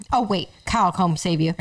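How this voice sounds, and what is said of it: Imitates another person's voice. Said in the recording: “Your impression of Mallory is hilarious.”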